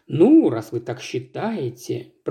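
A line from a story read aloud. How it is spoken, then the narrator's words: Mumbling. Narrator (Russian): пробормотал мистер Саттерс Уэйт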